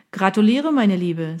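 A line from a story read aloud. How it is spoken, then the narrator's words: Plain. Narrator (German): sagte Dennis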